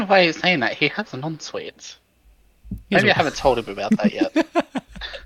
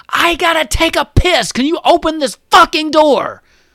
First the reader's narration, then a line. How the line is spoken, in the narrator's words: Luca screaming from upstairs